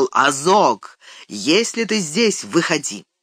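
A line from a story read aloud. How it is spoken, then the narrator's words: Loud call. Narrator (Russian): Наин громко воззвал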